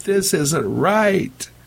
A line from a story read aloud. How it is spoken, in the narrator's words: Bobson cried out